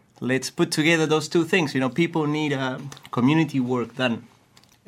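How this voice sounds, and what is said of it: Chilean-accented English. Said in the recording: “You've got a bit of an accent ... I'm from Chile.”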